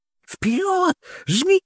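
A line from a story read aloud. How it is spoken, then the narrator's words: Sudden shout. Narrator (Russian): неожиданно закричала Сара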